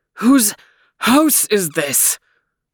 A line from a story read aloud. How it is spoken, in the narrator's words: Overton was desperately out of breath, but gasped